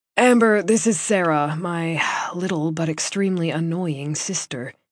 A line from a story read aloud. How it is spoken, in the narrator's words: he said, with a long-suffering sigh that spoke of an affection that only an older brother could have